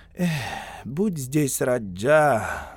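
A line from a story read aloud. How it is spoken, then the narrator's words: Sigh. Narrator (Russian): вздохнул Бенни Синг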